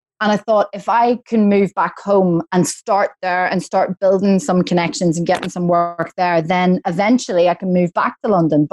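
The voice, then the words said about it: Belfast Northern Irish accent. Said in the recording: “I'm from Belfast. So Northern Ireland, you know, my accent's always been Belfast.”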